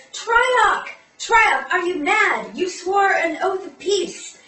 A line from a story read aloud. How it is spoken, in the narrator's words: And then she yells